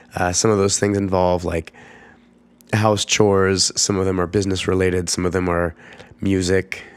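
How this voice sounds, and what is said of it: Congested, husky voice. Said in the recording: “I'm getting over a cold, and what's left is like some congestion and a nighttime coughing fits and this super sexy voice.”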